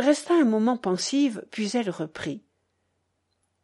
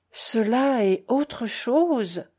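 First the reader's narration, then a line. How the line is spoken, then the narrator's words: Repeated slowly. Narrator (French): répéta la mère lentement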